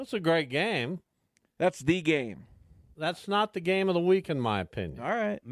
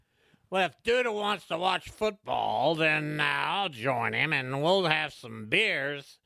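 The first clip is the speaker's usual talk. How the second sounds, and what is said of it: Imitates another person's voice. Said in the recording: “my impersonation of Josh?”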